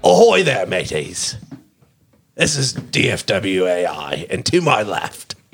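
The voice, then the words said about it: Put-on Australian pirate accent. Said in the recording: “Because I'm a fucking pirate, matey. An Australian pirate. ... But the accent is Australian.”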